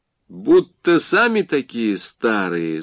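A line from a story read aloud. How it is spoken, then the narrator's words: Young woman laughing. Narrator (Russian): засмеялась девушка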